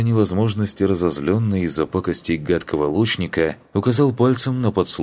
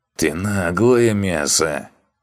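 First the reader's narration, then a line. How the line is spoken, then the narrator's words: Creature grumbling. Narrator (Russian): пробурчал агитрик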